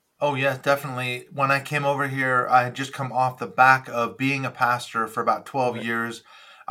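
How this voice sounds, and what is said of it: American accent. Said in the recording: “you've got an American accent, but you're based in the UK”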